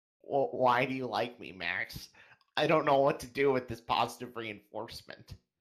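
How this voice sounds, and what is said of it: Imitates another person's voice. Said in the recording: “Enigma impression”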